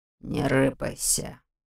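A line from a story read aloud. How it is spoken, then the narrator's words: Muffled growl. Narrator (Russian): приглушенно прорычал он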